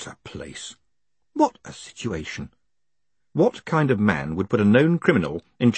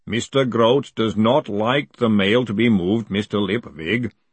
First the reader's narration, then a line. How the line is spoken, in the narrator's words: the golem rumbled